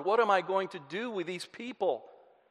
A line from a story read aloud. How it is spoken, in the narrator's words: cried out